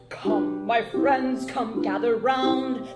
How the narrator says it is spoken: the sovereign roared so brazen

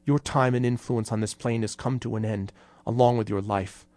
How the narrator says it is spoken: said in a strangled voice

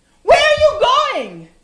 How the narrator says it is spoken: Saeed yelled

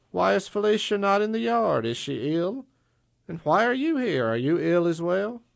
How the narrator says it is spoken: Frida sighed

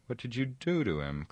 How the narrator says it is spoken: cried Frodo in alarm

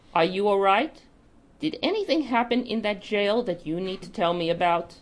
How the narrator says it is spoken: she said, trying to keep her voice even

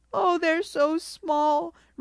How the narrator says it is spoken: Ruby Red sobbed

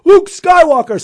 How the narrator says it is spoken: cried

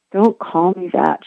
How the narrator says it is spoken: she muttered into her pillow

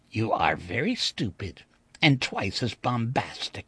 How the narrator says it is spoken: he said quietly

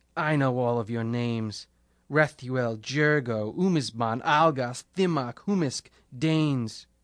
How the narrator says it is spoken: He spat up blood and said

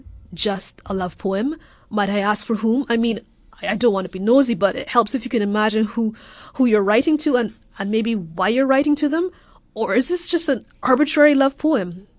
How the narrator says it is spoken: stammered

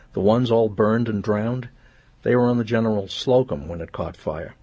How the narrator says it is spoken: said, her voice clear and crazed

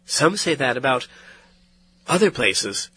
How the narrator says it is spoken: she replied, but not harshly

